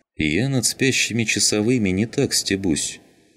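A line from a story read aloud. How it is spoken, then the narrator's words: Calm, military man. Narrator (Russian): спокойно проговорил военный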